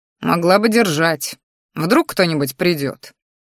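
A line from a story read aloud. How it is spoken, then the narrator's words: Father grumbling. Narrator (Russian): проворчал отец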